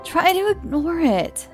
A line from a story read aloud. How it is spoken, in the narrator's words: I said in an annoyed voice